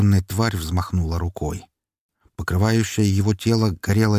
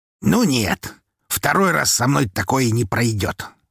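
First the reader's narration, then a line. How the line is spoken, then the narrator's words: Calm snort. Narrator (Russian): хмыкнул Константин, спокойно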